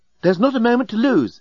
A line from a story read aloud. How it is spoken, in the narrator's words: exclaimed the remarkably attractive and remarkably available female alien